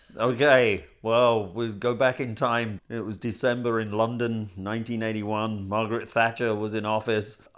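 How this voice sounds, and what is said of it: Non-American accent. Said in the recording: “you have not a typical American accent.”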